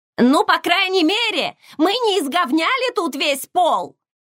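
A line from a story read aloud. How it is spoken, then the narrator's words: Yelling after someone. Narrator (Russian): заорала мне вслед Май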